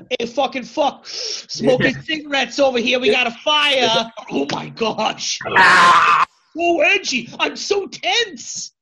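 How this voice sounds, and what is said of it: Put-on Boston woman's accent. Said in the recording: “You throw Boston in it... your accent was a chick from Boston”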